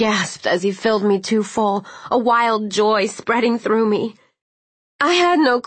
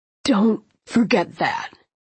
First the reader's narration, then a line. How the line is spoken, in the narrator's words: he said hoarsely